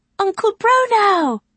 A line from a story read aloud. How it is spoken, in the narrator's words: cried Donivan